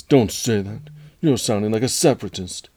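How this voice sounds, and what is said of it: Impression of a movie character. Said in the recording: “great Anakin impression”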